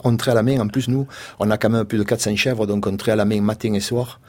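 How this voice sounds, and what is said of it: Southern French Marseille accent. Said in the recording (French): “c'est pas une histoire marseillaise, malgré mon accent”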